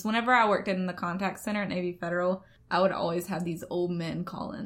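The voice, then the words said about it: Southern Alabama accent. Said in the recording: “I'm from Alabama ... they do not have your accent ... their Southern accent is different from our Southern accent ... I love your accent”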